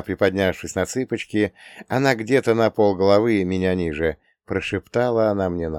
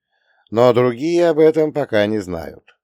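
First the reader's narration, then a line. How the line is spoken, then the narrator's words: Chuckling. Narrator (Russian): хохотнул я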